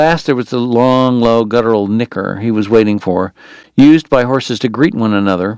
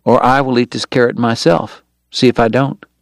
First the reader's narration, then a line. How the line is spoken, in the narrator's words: John Henry warned softly